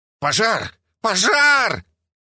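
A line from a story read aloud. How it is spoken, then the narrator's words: Frantic yell from crowd. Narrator (Russian): завопил кто-то среди покупателей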